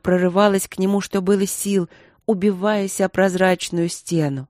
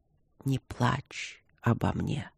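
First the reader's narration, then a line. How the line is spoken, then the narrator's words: Weak dying whisper. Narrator (Russian): обескровленными губами прошептал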